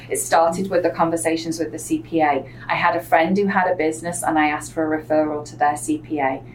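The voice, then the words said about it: English accent, not upper-class. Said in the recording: “anybody who is from England can hear in my accent, they know exactly that I don't come from a wealthy background. I know Americans just hear an English accent”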